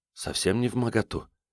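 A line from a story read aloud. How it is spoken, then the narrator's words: Whisper in the ear. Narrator (Russian): шепнула на ухо Катерина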